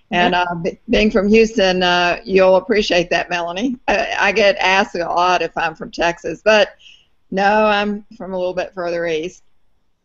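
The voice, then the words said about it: Southern American accent. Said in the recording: “I have a distinctive southern accent that's from Atlanta ... I started sounding like that”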